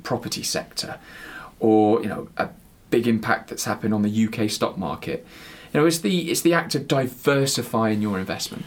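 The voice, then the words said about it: West Country English accent. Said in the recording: “that's my West Country accent coming through”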